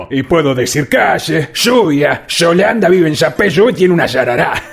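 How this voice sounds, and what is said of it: Argentine Spanish accent. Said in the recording (Spanish): “Se me va el acento. Hablo re argentino.”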